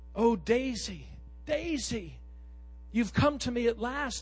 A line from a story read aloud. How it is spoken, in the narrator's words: he cried